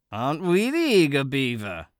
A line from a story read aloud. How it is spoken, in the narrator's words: Arlo chuckled at her